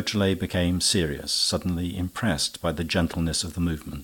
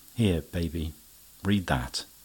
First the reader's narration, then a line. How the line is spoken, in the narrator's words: Lupin said very calmly